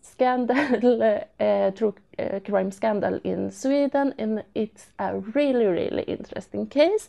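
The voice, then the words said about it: Foreign accent. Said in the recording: “I love your accent”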